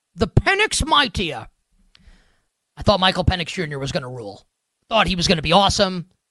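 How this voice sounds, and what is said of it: Bad Sean Connery impression. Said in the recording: “bad Sean Connery impersonation here on Celebrity Jeopardy. A bad impersonation of a bad impersonation of Sean Connery on Celebrity Jeopardy”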